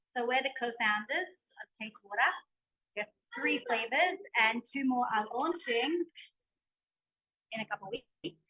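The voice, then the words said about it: Australian accent. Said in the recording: “such an Aussie accent”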